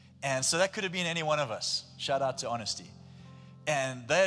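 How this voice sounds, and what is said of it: Usual voice. Nothing is said of it.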